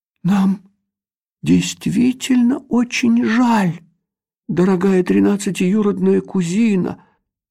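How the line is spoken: King mumbling. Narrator (Russian): промямлил король Камуфель

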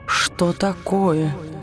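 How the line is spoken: Suspicious whisper. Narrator (Russian): подозрительно прошептала тень, ощутив перемену в ее настроении

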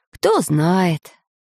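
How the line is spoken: Scholar's sigh. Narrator (Russian): вздохнул ученый

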